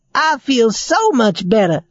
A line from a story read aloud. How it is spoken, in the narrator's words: said Raggedy Ann happily